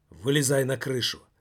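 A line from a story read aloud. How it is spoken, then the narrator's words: Sharp tone. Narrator (Russian): резким тоном сказал он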